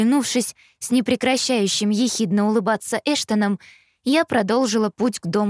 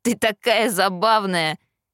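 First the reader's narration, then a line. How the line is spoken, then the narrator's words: Laughing. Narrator (Russian): рассмеялся Эштон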